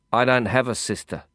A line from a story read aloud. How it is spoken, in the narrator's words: I said evenly in Hindi